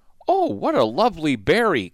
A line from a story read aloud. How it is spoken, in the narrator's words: Queen Ada exclaimed at the first present